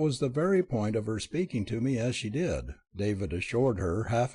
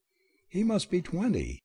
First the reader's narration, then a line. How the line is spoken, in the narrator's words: Sylvia broke in impatiently